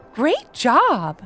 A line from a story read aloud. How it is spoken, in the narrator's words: exclaimed Credence